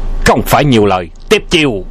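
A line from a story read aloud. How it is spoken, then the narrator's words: Shout. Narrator (Vietnamese): Tiếp theo tiếng quát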